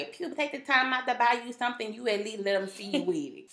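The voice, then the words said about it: Imitates another person's voice. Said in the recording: “why you have to give her that voice?”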